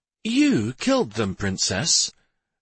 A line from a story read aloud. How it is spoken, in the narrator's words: Lady Brendis asked in a surprised tone